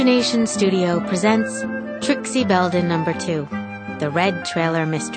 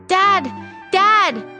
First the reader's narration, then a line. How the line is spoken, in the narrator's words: she shouted